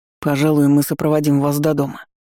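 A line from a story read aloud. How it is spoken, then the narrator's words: Guard's gruff grumble. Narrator (Russian): буркнул стражник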